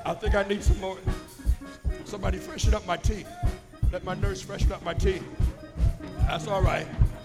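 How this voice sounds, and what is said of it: Strained, failing voice. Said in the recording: “My voice is going”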